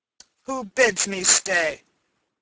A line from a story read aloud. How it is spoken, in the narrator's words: said the miller, in a voice deep and gruff, like the growl of a great dog